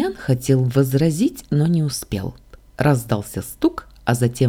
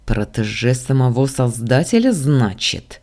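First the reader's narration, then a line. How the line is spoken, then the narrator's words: Through gritted teeth. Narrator (Russian): процедил сквозь зубы Дамиан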